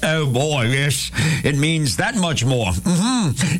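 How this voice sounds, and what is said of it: Bad put-on British accent. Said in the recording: “if you say it with a British accent ... that was probably the worst British accent you've ever heard in your lives”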